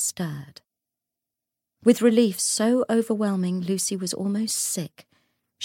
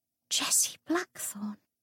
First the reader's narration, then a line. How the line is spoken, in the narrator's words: Lucy whispered, as the world swam away and the dim light faded